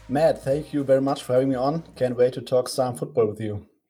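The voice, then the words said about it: German accent. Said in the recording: “people might have intuited from your accent, you are German”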